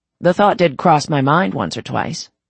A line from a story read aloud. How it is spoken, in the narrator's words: he said dryly